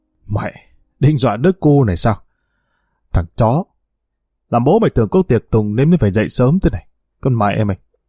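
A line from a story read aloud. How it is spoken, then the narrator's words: Muttering. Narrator (Vietnamese): tên này miệng lẩm bẩm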